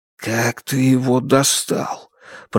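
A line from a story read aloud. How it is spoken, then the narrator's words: Mumbling with full mouth. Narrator (Russian): пробормотал Ду с набитым ртом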